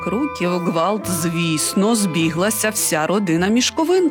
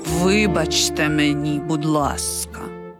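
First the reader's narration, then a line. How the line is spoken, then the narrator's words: Quiet man. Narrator (Ukrainian): тихо звався Сальєрі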